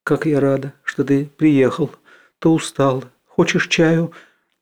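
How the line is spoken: Quiet woman's voice. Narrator (Russian): Графиня сидела на кровати и тихо говорила

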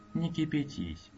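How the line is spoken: Almost apologetic request. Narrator (Russian): попросила Элинор почти извиняющим тоном

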